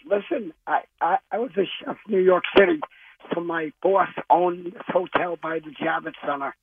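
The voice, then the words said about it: Hoarse, raspy voice. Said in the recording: “I'm going to have a little laryngitis.”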